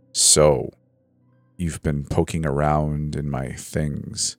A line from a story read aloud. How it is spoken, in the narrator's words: he said icily